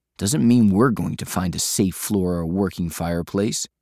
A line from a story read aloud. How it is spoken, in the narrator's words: Thayrin grumbled